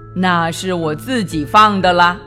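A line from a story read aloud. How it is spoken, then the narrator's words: Loud, solemn announcement. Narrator (Chinese): 菲菲郑重的大声宣布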